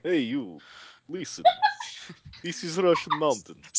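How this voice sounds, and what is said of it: Put-on Russian accent. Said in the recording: “with a Russian accent”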